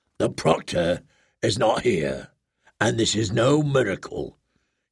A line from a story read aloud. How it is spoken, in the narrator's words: he said in a steely voice